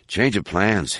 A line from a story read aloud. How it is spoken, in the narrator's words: muttered